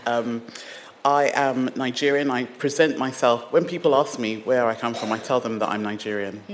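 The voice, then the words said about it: British accent. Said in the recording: “The only thing I think that's British about me is this accent.”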